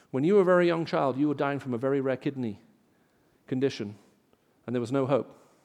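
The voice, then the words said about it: English BBC-style accent. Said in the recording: “English accent? ... My English accent comes because I used to listen to the BBC World Service. So if you ever do, this is the voice of the BBC.”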